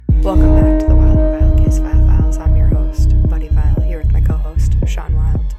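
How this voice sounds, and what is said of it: Quiet smooth NPR-style radio voice. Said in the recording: “said that so quietly ... Your NPR voice ... very much my NPR voice”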